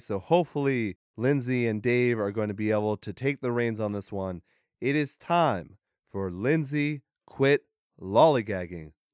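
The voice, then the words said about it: Strained, failing voice. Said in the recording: “My voice is giving out on me”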